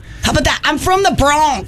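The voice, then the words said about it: Put-on Bronx New York accent. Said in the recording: “It's very Bronxy.”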